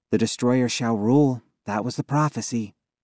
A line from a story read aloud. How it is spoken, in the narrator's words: Allie replied